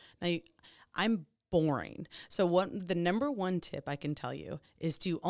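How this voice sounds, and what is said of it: Usual voice. Nothing is said of it.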